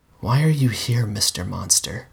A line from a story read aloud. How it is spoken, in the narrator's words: whispered